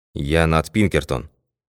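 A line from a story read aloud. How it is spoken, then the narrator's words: Calm. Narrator (Russian): спокойно ответил сыщик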